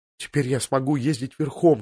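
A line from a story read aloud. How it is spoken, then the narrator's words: Whisper. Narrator (Russian): шепнул он своему другу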